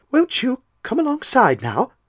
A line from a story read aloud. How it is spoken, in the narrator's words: asked Will in an even voice